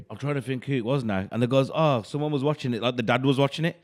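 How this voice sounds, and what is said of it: Very strong regional English accent. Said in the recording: “you do have a very, very strong accent.”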